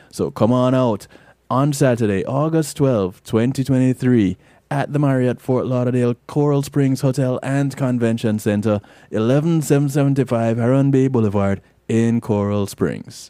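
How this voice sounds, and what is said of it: Announcer voice. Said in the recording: “Use up my announcer voice”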